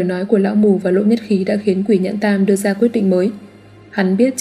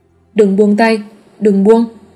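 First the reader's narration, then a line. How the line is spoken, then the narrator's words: Blind old man shouting. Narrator (Vietnamese): Lão mù hét lớn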